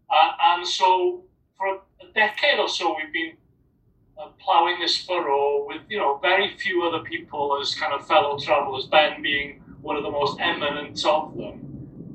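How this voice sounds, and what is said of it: Welsh accent. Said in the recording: “people with my accent in Wales”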